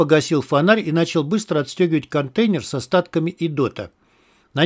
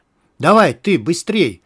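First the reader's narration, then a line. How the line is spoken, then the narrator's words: Loud unafraid shout. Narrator (Russian): крикнул он Дину, уже не боясь, что его услышат мародеры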